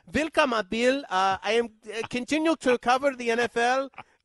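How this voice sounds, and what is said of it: Put-on German accent. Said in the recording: “start talking in this accent? ... Maybe I just need an accent”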